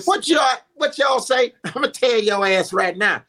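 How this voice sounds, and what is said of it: Steve Harvey impression. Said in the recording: “I said something in a Steve Harvey voice.”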